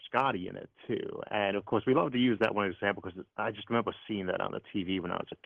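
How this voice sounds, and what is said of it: Cleveland accent, trouble pronouncing R. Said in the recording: “you have a cool accent, man... It's a Cleveland accent... I'm not very good at pronouncing the letter R as in rabbit. So a bit of an Elmer Fudd thing”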